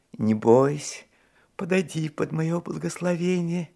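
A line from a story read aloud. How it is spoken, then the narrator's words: Frightening man, tender call. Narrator (Russian): Страшный мужик ласково меня кликал, говоря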